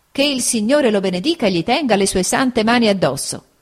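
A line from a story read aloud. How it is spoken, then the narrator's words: Lively exclamation. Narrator (Italian): esclamò vivamente mia zia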